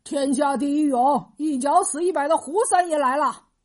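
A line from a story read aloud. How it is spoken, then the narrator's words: Loud boastful shouting. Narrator (Chinese): 胡三，大声嚷嚷道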